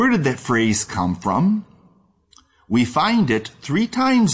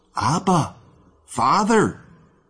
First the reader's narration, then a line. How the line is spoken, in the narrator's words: the child of God, in excitement, in love, or perhaps in trouble, cries out